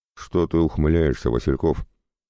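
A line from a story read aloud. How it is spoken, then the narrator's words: Sergeant's snort. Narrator (Russian): хмыкнул старший сержант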